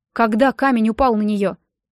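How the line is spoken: Plain. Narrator (Russian): спросила она

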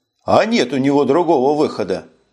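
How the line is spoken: After laughing. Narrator (Russian): Отсмеявшись, сказал Коган

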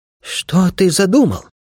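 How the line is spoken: Anxious question. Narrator (Russian): взволнованно спросил Ми

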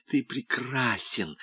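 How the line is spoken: Breathless murmur. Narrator (Russian): задыхаясь, бормотала она

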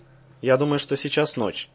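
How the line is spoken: Said quietly. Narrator (Russian): негромко сказала Николаева

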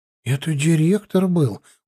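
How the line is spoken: Surprised frightened whisper. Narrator (Russian): удивленно и испуганно прошептал Андрюха

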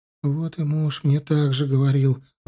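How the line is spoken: Sighing. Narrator (Russian): вздохнула Галия

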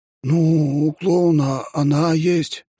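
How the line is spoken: Unsure cadet. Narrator (Russian): неуверенно сказал кадет

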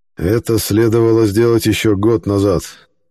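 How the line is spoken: Gloomy. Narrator (Russian): мрачно произнес координатор Левинский

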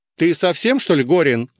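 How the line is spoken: Barking, female manager. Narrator (Russian): рявкнула на меня заведующая

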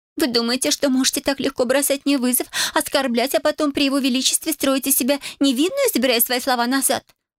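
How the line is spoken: Frowning, sudden sob. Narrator (Russian): Нахмурилась Бель и неожиданно всхлипнула

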